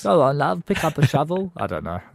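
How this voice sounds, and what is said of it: Put-on Cockney-style English accent. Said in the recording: “That was a good one. ... It's kind of Cockney.”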